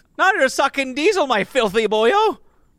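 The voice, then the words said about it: Attempted Irish accent. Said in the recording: “I can't even do an Irish accent.”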